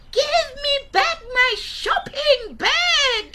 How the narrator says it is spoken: Gogo shouted

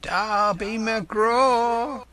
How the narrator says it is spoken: it wailed, for that is the word that best describes the sound

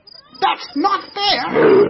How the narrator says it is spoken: shouted the monkey

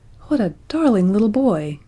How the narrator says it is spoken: exclaimed Roxanne, smiling radiantly

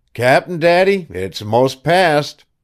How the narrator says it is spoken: your yells growing less and less, and by you called out tween squalls

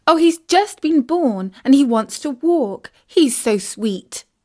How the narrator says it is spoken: exclaimed Isis

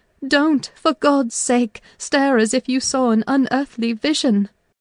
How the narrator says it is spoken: I cried

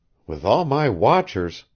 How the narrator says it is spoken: she faltered

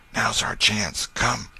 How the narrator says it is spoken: Tom whispered

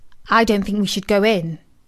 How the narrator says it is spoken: said Milo

